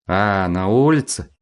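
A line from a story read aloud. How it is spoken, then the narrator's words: Drawling. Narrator (Russian): протянул горбоносый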